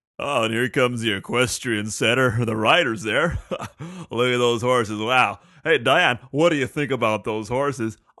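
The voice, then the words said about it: Phony announcer voice. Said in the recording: “You can tell he's putting that phony ass voice on.”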